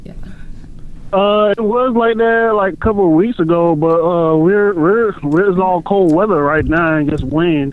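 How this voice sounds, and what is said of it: Man speaking with a regional accent. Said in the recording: “He has an accent, too. ... He's got an accent, too.”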